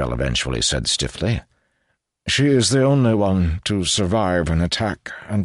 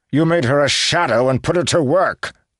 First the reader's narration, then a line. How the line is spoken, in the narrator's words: growled Alosian